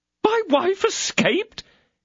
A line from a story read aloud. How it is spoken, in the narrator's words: cried Bonacieux